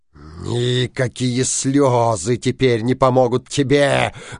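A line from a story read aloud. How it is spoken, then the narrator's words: Menacing. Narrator (Russian): грозно сказал синяя борода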